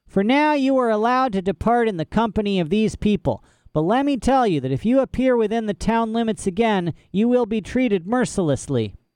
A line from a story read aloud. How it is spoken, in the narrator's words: said the Sisselman in a high, harsh voice